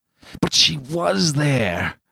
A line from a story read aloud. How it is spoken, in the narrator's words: he groaned to himself